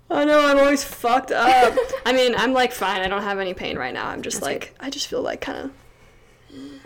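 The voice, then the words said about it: Tired-sounding voice. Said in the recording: “You sound so tired.”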